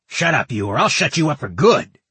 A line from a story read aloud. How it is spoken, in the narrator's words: the Martinhale guard snarled